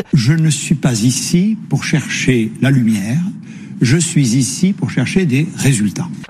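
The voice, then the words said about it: Sing-song regional French accent. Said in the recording (French): “son accent chantant”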